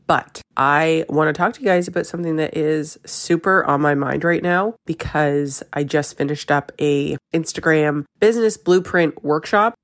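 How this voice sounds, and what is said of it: Slightly raspy voice. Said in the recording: “my voice might sound a little bit raspy, just getting over a little bit of a cold”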